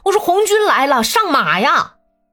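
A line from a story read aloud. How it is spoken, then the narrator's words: Shouted commands. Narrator (Chinese): 他们那儿也在叫口令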